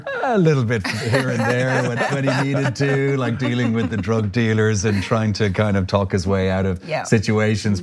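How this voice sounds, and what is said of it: Irish accent. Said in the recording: “I got to use my own accent ... I had to move away from Ireland”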